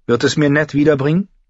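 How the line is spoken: Sharp question. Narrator (German): fragte sie scharf

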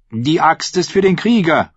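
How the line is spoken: Called out. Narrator (German): rief Rus

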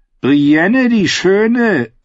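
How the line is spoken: Mocking. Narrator (German): sagte er spöttisch

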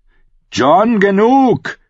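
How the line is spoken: Calling out. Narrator (German): rief Halder

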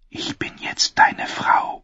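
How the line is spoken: Whisper. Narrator (German): flüsterte sie

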